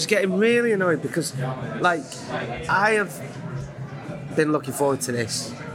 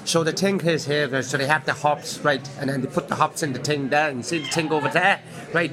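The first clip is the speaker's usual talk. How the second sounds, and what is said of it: Imitation of tour guide's accent. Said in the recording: “I'm not going to do the accent”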